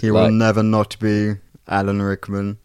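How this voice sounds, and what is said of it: Oily voice imitating another person. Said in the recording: “Like, the oily voice. ... That was ... doing his impression, by the way. We didn't just like sample that. ... that was just my impression.”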